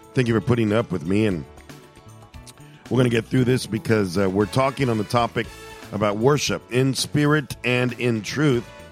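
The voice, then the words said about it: Hoarse, strained speaking voice. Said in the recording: “my hoarse voice ... I've had a hoarse voice for a little bit more than a week now ... today I don't have my regular voice ... I can barely talk”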